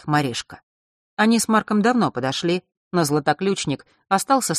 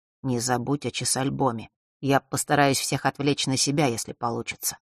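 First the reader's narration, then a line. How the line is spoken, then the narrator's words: Quiet, smiling. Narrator (Russian): улыбнулся и тихо произнес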